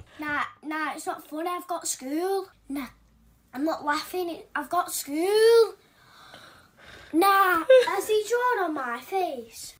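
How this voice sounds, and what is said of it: Child with Scottish accent. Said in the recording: “he's a little Scottish toddler ... With that little Scottish accent”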